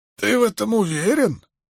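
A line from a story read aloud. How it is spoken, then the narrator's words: Hoarse, sarcastic. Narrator (Russian): Даже сквозь хрипы в голосе Вудварда пробились саркастические нотки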